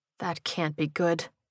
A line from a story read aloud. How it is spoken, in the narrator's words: she muttered